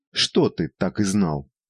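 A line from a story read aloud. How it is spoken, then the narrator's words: Stern question. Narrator (Russian): строго спросила Евгения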